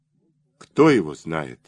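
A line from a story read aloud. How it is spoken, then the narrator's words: Plain. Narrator (Russian): сказал сержант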